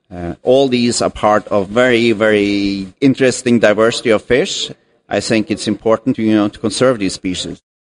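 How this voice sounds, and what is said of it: Norwegian accent. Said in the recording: “you've got an accent ... I am originally from Norway”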